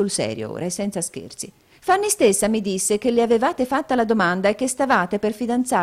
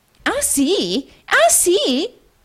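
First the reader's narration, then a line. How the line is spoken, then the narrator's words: Shrill female exclamation. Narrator (Italian): esclamò un'acuta voce femminile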